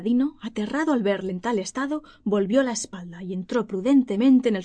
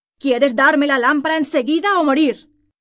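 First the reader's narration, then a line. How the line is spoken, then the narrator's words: Furious demonic shout. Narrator (Spanish): El magrebí, furioso por la resistencia que hacía Aladino, le gritó con una voz espantosa como la de un demonio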